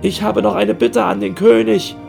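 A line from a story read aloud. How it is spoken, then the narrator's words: Wailing, surprised. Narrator (German): jammerte der Dachdeckermeister, der sichtlich überrascht war und sich keineswegs schuldig fühlte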